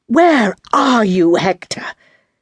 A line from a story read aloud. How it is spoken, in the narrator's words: said savagely